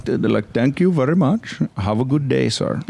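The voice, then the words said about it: Good put-on Indian accent. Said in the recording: “You do a great Indian accent.”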